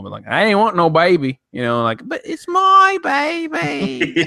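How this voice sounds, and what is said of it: Put-on Southern hick and Australian accent. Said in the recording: “That's going to be an interesting accent. It's like the Southern hick and then the Australian.”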